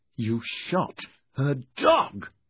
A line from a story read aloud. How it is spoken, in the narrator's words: Merthyn said angrily